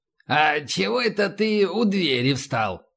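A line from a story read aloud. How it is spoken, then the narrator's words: Snide question. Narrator (Russian): спросил ехидно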